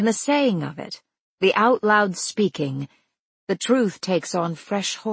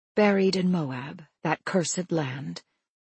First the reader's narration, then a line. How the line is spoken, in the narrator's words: she whispers